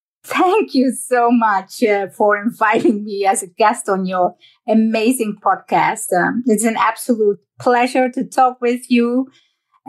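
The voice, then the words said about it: Dutch accent. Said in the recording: “this stunning accent ... I was born and raised in the Netherlands”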